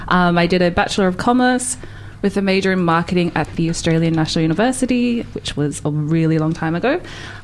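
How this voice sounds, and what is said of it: Australian accent. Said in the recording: “I'm actually from Australia. ... if you couldn't tell by my accent.”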